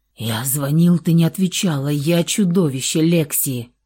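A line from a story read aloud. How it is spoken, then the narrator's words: Hoarse rasp in ear. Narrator (Russian): захрипел в ее ухо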